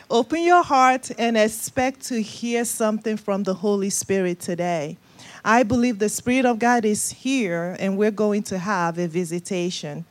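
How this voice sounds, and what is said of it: Nigerian West African accent. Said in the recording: “Nigeria, West Africa. That's the accent you're hearing.”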